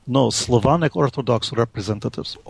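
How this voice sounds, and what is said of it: Heavy put-on Russian accent. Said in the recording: “in my best heavy Russian accent that I could manage”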